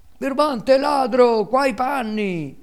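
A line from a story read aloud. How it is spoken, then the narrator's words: Two unhappy boys yelling. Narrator (Italian): urlavano i due infelici garzoni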